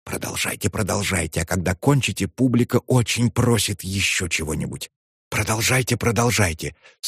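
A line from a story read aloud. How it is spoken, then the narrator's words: Very delicate whisper. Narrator (Russian): думал очень деликатно прошептать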